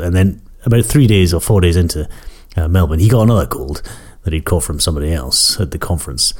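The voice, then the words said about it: Slightly croaky voice from a cold. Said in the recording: “why my voice is a little bit croaky”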